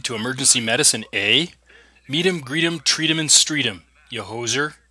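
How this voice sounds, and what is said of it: Exaggerated put-on Canadian accent. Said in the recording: “This over-the-top Canadian accent”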